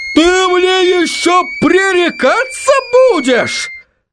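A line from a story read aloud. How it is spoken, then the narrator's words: Furious yell. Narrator (Russian): завопил он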